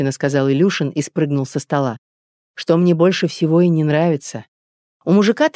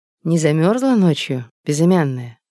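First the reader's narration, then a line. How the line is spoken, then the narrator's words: Tender. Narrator (Russian): ласково спросил он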